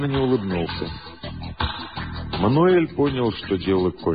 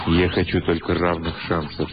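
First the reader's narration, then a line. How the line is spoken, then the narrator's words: Quiet. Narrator (Russian): негромко сказал Мануэль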